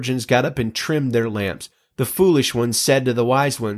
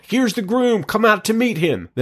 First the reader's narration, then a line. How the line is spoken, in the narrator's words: there was a shout